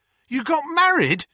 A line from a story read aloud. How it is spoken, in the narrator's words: Harry yelped